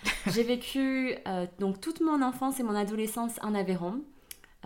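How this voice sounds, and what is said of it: Southern French accent. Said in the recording (French): “On est dans le sud de la France. Ça s'entend d'ailleurs à mon accent.”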